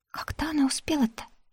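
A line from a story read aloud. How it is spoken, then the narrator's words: Whispered question. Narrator (Russian): шепотом спросила Ляля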